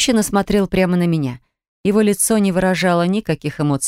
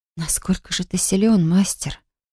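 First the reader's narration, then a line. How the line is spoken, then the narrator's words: Whisper echoing like thunder. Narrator (Russian): прошептала я, но в пустой аудитории эти слова прозвучали громовым раскатом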